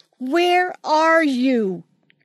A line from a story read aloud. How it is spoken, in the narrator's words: she screamed